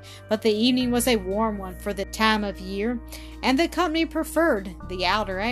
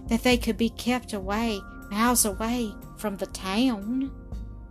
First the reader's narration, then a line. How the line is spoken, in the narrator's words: murmured the girl, with a slight shudder